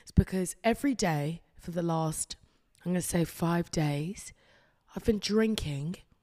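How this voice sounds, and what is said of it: Hoarse voice. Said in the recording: “my voice is sexy, it's hoarse, it's mysterious”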